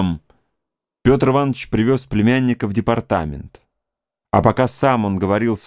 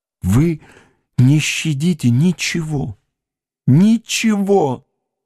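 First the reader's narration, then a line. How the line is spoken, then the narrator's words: Desperate moan. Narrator (Russian): С отчаянием стонал он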